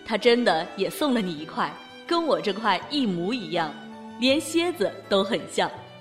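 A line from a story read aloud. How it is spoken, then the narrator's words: Smiling. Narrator (Chinese): 余庆笑着说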